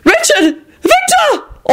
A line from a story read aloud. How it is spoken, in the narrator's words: All three of the women shrieked at once